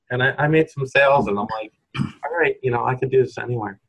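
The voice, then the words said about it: New York accent. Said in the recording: “I'm from New York, my New York accent”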